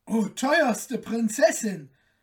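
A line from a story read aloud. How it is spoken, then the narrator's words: Calling out. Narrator (German): rief der Kalif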